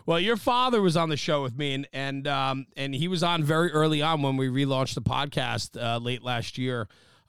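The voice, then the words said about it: New Jersey accent. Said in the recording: “the part of town I'm from is the Northeast. It's called New Jersey ... saying things in your funny accent, like fire department”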